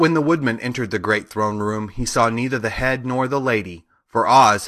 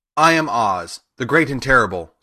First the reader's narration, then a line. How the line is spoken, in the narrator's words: spoke the beast in a voice that was one great roar